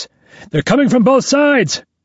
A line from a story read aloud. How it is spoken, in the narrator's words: One of the soldiers shouts